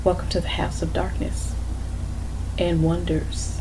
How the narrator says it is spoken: My friend then stood up before all of us and whispers

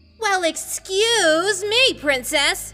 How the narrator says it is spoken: Link said sarcastically

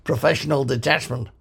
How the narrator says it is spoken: grunted the Vogon

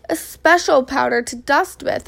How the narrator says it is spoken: exclaimed Amelia Bedelia

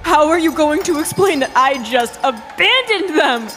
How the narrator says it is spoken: I screamed at the top of my lungs

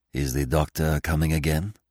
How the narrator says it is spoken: asked Poirot in a whisper

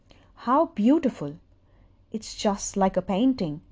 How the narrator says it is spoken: exclaimed Katsuki Ohara

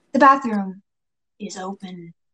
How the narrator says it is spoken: the second man states in an unholy deep voice

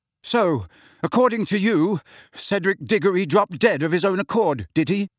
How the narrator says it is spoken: Harry asked, his voice shaking

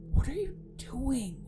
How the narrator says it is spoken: I whispered

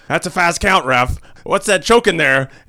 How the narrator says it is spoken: He's yelling at the ref

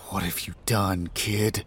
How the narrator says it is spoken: I murmur

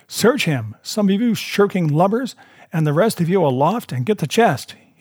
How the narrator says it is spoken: he cried

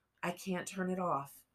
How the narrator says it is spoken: she said, calmly

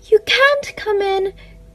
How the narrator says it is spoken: cried the queen

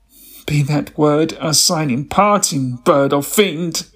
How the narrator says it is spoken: I shrieked

